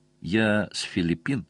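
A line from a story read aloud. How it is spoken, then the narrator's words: Quiet explanation. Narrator (Russian): тихо пояснила Анита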